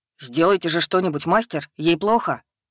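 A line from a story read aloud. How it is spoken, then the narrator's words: Exclaimed. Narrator (Russian): воскликнул Еремил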